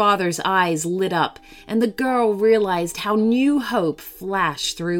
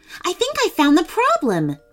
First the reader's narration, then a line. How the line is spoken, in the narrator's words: Melissa exclaimed excitedly